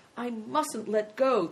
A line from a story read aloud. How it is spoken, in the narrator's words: thought Christian desperately